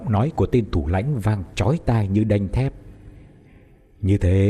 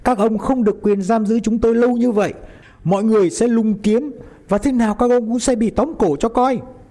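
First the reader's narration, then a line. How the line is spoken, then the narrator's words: Shout. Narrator (Vietnamese): Phan hét lên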